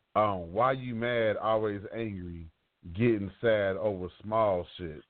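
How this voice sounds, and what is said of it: Sultry, seductive reading voice. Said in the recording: “I got to put my sexy voice on”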